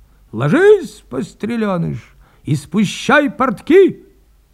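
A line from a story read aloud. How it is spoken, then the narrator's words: Sudden cry. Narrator (Russian): Вскрикнул Мишка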